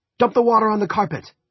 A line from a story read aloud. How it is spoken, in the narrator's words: Tony shouted